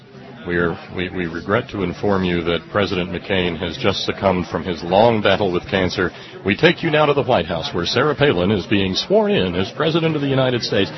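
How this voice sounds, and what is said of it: Very serious news announcer voice. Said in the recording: “This is a special report from CBS News... the very serious voice says”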